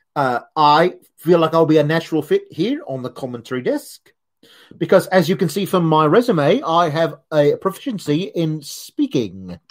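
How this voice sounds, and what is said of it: Weak put-on Australian accent. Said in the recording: “My Australian accent is not also great.”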